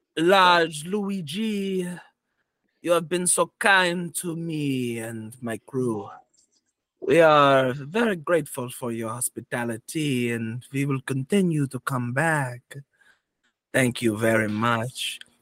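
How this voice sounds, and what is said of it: Sexy put-on character accent. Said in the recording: “I'm trying a new accent, and it's coming off as that one because I can't not be sexy. ... Why are you making somebody else that sexy?”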